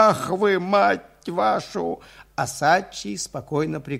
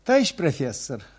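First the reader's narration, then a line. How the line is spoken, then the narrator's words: Plain. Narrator (Russian): говорит лапоть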